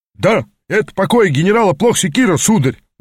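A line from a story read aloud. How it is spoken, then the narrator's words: Sudden sharp bark. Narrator (Russian): внезапно рявкнул часовой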